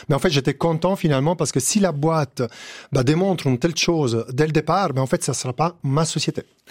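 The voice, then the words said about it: Italian accent in French. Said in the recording (French): “mon accent italien”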